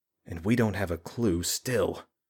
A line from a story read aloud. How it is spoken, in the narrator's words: Julian muttered under his breath